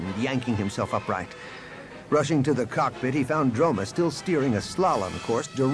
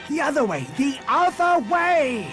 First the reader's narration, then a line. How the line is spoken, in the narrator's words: Han screamed